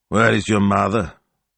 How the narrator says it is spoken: he grumbled to Gemma

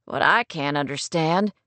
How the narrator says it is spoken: Skip muttered

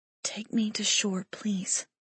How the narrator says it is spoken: she whispered

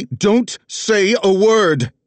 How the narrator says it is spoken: Tessa roared

